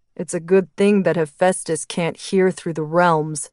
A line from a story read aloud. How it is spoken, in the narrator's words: Erebus chuckled